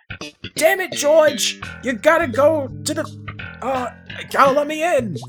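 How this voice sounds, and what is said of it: Old man character voice. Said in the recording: “do an impression of his voice? ... George's dad ... he is pretty old”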